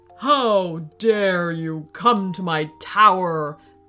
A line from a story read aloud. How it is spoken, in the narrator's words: boomed the wizard